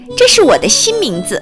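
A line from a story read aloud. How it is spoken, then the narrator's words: Cheerful, smiling. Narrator (Chinese): 短尾巴兔笑嘻嘻地说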